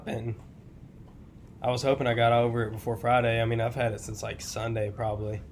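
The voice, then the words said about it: Hoarse, congested voice. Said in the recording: “I'm feeling a little under the weather, if you guys couldn't tell. My voice is kind of gone. And I'm kind of stuffed up.”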